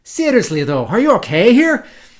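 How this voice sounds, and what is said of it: Put-on Scottish accent. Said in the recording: “Michael Bell doing a, what is it, Scottish accent?”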